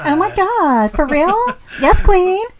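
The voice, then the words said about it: Exaggerated valley girl voice. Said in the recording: “talks like a valley girl ... Now you sound like my niece.”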